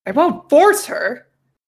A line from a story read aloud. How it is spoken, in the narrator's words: Jacob exclaimed